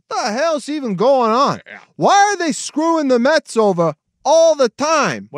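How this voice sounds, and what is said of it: Put-on New York accent. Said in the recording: “What is this accent you're doing? Is that New York? ... That's New York, right?”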